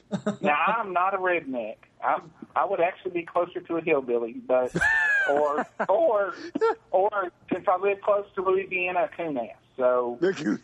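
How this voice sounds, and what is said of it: Rural Southern American accent. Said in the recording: “I can tell by the accent. ... All you rednecks sound the same.”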